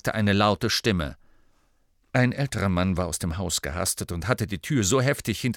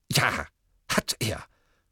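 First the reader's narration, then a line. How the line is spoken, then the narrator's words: Snarling. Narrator (German): fauchte Ogden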